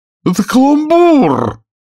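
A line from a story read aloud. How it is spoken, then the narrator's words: Angry king shouting. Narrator (Russian): закричал сердито король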